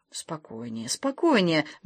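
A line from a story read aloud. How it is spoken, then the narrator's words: Soft, calming. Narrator (Russian): мягко сказал Доркас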